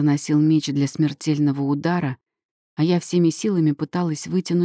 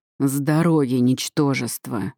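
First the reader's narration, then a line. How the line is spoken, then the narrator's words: Demonic growl. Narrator (Russian): прорычал демон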